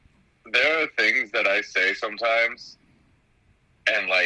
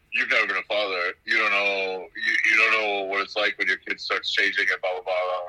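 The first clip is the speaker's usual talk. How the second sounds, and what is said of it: Imitates another person's voice. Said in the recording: “is Papa Asher here? That impression was so spot on.”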